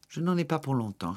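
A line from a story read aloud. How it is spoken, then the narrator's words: Firm retort. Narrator (French): répliqua-t-il d'un ton ferme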